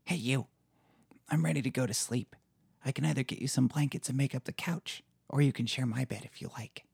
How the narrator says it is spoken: She whispers

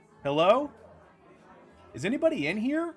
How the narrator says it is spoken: yell out instinctively

